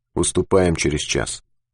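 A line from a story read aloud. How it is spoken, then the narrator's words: Very quiet. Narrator (Russian): сказал очень тихо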